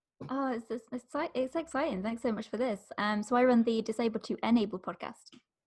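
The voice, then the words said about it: Smooth British accent. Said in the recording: “the smooth British accent”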